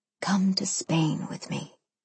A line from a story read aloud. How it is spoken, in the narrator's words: he whispered